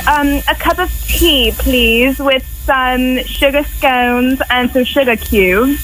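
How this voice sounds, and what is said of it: Poor put-on British accent. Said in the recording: “Can you do a British accent? ... That was horrible, huh?”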